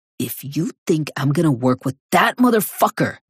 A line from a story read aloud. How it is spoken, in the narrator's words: Cormac hisses